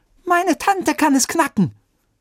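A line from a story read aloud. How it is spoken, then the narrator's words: Shouted. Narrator (German): rief Oliver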